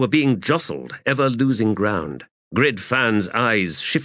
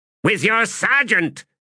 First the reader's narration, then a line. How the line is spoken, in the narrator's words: snapped Ordinary Grey